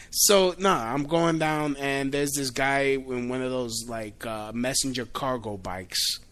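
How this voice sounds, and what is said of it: Thick accent. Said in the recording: “you hear the accent? The accent's coming out thicker.”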